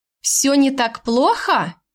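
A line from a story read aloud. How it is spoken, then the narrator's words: Sarcastic repeat. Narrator (Russian): ехидно повторила я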